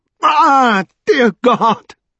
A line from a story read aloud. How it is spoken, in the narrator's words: screamed Strange